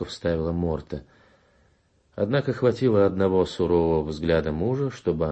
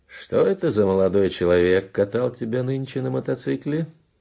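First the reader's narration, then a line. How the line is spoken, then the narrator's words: Cheerful question. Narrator (Russian): весело осведомился Раполос Кунчинос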